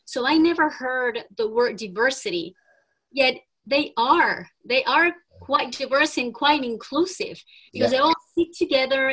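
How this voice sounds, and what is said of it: Speaks English with a non-native accent. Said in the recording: “if you hear my accent, you'll know that that's key to who I am”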